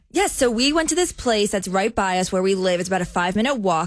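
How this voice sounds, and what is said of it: New Jersey accent. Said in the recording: “is from New Jersey, so you hear a lot of Jersey accent popping on the show.”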